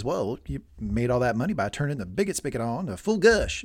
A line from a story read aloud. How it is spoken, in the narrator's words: Tom says